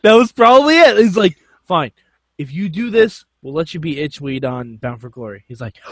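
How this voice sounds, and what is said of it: Usual voice. Nothing is said of it.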